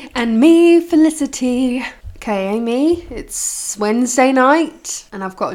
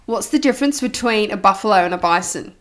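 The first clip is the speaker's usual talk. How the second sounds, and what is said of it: Put-on Australian accent. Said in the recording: “I'm going to have to do it in Australian accent.”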